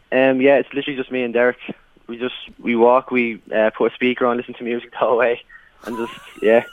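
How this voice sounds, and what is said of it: Hoarse, worn-out voice. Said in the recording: “my voice is gone because we're just singing the whole day”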